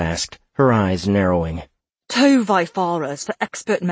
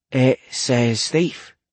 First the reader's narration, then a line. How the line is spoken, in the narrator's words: Alder said, in that dreamy tone that indicated he'd have done anything she asked of him